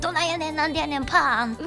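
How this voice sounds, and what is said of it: Osaka Kansai dialect phrases. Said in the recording (Japanese): “大阪弁炸裂ラジオ ... 大阪出身 ... 関西弁で”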